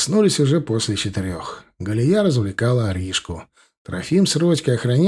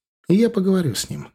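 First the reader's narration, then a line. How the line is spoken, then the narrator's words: Calm smiling promise. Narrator (Russian): спокойно улыбаясь, пообещала мужу Нуралайн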